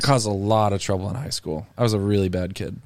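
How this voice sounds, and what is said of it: Sarcastic tone. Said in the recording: “He's being sarcastic.”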